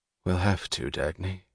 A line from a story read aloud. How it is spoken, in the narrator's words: he said, his voice dead